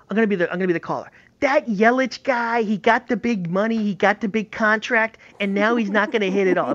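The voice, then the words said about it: Put-on New York accent. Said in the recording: “I did the New York accent. I was trying to do a Midwest accent.”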